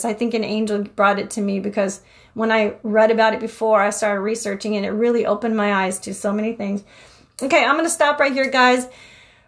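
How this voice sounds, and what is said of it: Breathless, out of breath speech. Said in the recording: “Whew, I'm out of breath.”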